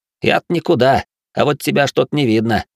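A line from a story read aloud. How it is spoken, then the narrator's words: Knowing smug snort. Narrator (Russian): хмыкнул пройдоха, знающий все и обо всех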